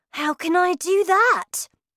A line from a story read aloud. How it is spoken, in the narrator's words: I cried